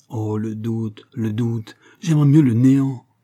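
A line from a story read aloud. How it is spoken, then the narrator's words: Moved, exclaiming, head in hands. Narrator (French): Ému des discours de Bouvard, il s'écriait, la tête dans les mains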